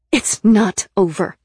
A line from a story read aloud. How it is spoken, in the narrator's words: I said fiercely